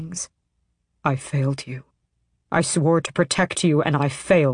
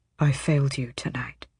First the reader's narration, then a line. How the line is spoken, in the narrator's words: he murmured, his voice hoarse